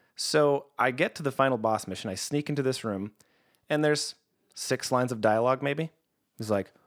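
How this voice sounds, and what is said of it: Usual voice. Nothing is said of it.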